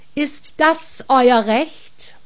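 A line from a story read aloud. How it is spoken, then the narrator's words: Stern question. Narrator (German): fragte Archibald streng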